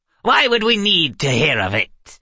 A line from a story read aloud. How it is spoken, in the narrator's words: Wilna snapped